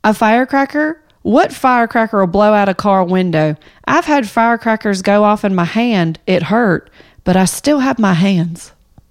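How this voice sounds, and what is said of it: Reads aloud in a put-on accent. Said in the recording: “the way you read it with your accent”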